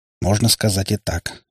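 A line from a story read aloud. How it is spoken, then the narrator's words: Plain. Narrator (Russian): ответил я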